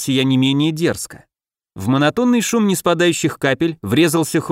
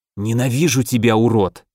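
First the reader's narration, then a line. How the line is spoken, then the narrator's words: Hiss. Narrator (Russian): прошипел незнакомец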